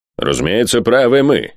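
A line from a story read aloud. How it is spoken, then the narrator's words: Cold. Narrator (Russian): холодно сказал хозяин Найтхолла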